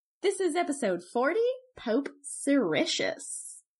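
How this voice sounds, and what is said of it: Sultry, sexy voice. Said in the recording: “sexy voice”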